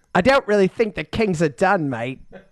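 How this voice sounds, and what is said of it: Put-on Australian accent. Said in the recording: “another Australian ... Another Australian accent?”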